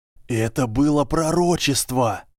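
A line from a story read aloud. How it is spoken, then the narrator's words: Hissed. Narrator (Russian): прошипел кто-то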